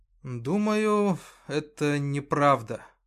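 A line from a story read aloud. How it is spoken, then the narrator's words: Forced out. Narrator (Russian): выдавил он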